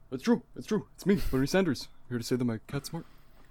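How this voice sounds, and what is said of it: Impression of Larry Sanders. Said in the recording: “It's a good impression, right?”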